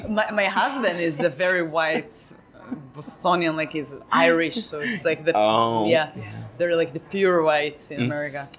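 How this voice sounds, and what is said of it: Non-native English accent. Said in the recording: “I have accent.”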